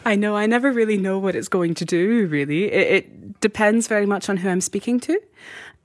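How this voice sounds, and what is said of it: Mixed American-Scottish accent. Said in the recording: “I love your accent. ... It is somewhere between Colorado and Scotland. ... It has this Atlantic feel to it.”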